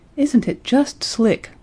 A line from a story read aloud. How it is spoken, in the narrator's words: sighed Betty